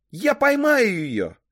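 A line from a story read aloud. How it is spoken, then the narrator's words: Shout. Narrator (Russian): крикнула я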